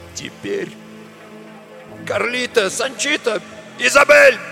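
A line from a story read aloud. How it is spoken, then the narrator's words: Barking shout. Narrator (Russian): гаркнул он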